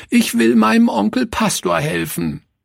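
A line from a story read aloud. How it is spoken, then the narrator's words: Sobbing cry. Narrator (German): rief sie schluchzend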